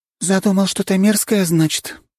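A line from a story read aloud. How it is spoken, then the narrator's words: Sighing woman. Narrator (Russian): вздохнула кореянка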